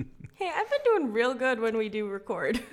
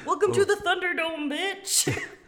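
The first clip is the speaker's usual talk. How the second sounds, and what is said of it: Screaming into the microphone. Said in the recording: “I yelled that... She's screaming in the microphone again.”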